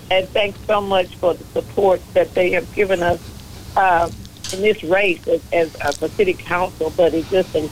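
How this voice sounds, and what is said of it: Rough, strained voice. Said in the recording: “My voice is a little bit messed up.”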